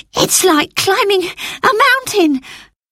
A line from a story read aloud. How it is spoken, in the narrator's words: gasped Phyllis